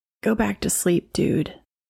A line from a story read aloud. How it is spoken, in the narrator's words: I was still too tired and sleepy to do anything, but I remember I mumbled